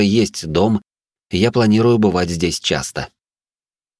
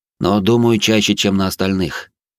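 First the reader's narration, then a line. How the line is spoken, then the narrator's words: Heavy sigh. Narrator (Russian): добавил я и тяжело вздохнул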